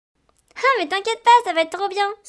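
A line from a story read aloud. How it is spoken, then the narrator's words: Exclaimed. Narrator (French): s'écria Thelma juste derrière Livia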